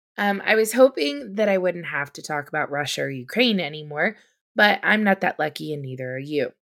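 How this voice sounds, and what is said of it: Hoarse, strained voice. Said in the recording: “I am losing my voice from hacking up my lungs”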